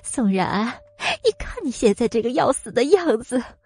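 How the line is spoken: Trembling, laughing loudly. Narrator (Chinese): 米蕊突然放声大笑，身子颤抖的说

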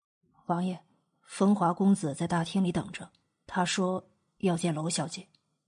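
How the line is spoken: Quiet. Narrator (Chinese): 白泽小声的道

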